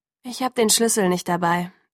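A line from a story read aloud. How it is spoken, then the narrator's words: Sighed. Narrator (German): seufzte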